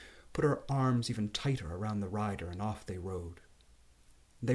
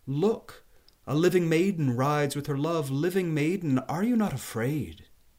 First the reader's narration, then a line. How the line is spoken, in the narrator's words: a voice called out from inside the graveyard, and it said